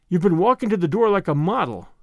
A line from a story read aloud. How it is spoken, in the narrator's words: said